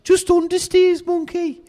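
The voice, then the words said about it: Put-on Birmingham accent. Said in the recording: “I will affect my Birmingham accent”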